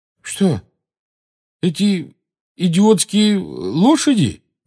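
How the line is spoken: Uncertain question. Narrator (Russian): неуверенно спросил Рон

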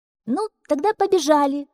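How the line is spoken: Shouting. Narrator (Russian): закричала Мю

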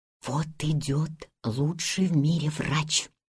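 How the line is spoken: Whisper. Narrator (Russian): шептал голос

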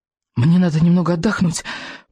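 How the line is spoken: Poor fellow's hoarse wheeze. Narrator (Russian): просипел бедняга Рыбьенок

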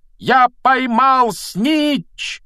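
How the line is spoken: Loud shout. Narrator (Russian): громко закричал он

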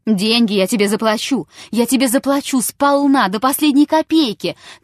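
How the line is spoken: Shouting. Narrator (Russian): кричал Чертапханов

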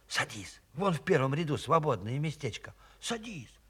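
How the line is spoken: Whisper. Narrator (Russian): Мария Николаевна шепнула

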